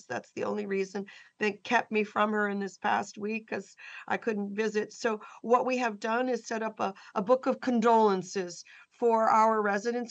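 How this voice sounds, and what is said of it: Hoarse voice from laryngitis. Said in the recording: “You can hear in my voice, I have a little bit of laryngitis.”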